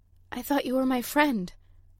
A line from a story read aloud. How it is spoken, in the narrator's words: Cosima said at last, her voice shaking